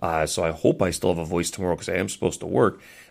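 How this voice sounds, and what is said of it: Deeper, strained sick-sounding voice. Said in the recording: “my voice sounds a lot different. It's a little deeper ... my throat was going as well”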